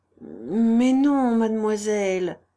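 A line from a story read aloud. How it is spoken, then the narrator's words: Stammer. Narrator (French): balbutia Germinie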